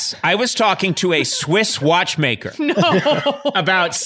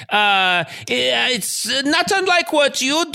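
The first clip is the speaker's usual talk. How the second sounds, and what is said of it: Deliberately bad Swiss accent. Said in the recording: “It's a Swiss accent, said the guy who has no idea what he's doing.”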